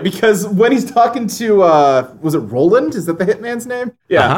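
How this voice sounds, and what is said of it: Usual voice. Nothing is said of it.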